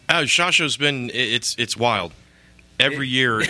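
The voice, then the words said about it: Hoarse, fading voice. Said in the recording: “my voice is already starting. I'm losing my voice already ... Good radio voice ... I can't speak.”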